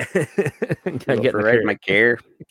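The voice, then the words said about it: Imitated East Coast Canadian accent. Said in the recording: “I like the East Coast car when they say care.”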